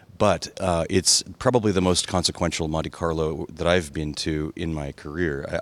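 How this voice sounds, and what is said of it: Tired, worn-down voice. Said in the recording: “you can tell from my voice that we're all a bit worn down”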